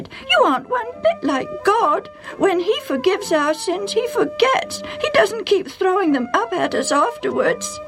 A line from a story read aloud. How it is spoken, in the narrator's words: Sally cried